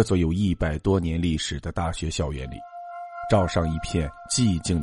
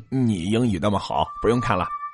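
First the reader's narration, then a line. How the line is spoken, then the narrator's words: Cheeky, joking. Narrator (Chinese): 张传勋嬉皮笑脸的说道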